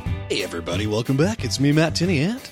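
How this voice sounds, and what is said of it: Put-on radio announcer voice. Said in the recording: “I was trying to do my radio voice”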